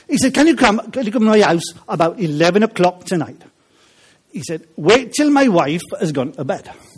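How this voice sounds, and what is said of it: Put-on Welsh accent. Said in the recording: “I will try and do it with a Welsh accent because it comes over a bit better”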